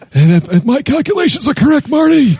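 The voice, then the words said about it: Doc Brown character impression. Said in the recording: “That was a great impression. ... Doc Brown”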